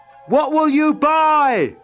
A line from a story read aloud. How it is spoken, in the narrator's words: someone yelled out